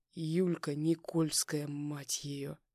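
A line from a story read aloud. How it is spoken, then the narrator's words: Hiss. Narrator (Russian): Прошипел я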